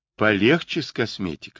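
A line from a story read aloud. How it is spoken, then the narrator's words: Plain. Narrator (Russian): сказала Крис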